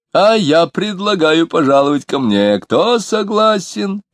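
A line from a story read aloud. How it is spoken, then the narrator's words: Squealing. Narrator (Russian): завизжал Лютов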